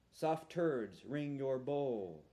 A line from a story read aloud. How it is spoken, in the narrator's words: I mumble